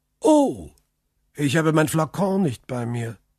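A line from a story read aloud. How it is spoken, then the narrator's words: Exclaiming. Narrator (German): rief der Graf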